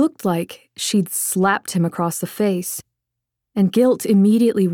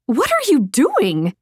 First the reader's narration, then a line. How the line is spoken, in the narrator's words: shrieked